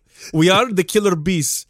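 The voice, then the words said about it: Mock Spanish bandito accent. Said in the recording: “I don't know why we sounded this like. ... Like a Spanish accent. ... I thought we were Italian there for a second. ... We were Italian, then we were Spanish bees. ... It's an old Saturday Night Live episode ... They were Mexican ... banditos.”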